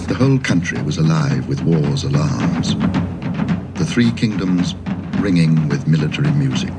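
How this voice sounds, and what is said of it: Pure, elegant English accent. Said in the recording (French): “accent anglais pur, délicieux. Tellement élégant.”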